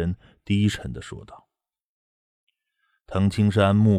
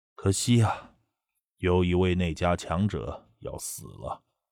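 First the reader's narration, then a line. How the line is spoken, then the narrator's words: Sigh. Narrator (Chinese): 那孙泽叹息了一声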